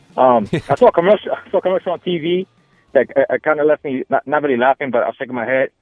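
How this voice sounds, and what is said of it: New York accent. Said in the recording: “I'm originally from New York. ... You can tell my accent.”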